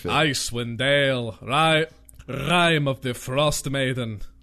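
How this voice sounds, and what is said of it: Character voice with rolled R. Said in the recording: “I can do my Jarl Bolgriff impression ... You really rolled that R there.”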